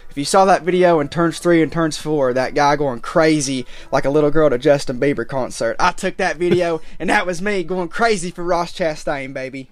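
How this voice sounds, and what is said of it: Worn-out, strained voice. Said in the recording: “My voice is a little bit shot”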